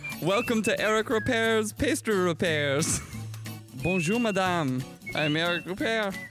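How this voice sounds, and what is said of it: Strong put-on French accent. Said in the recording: “such a strong French accent”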